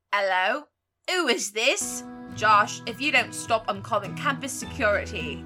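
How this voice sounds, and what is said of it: Put-on British accent. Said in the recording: “I can't not do a British accent. I'm trying so hard.”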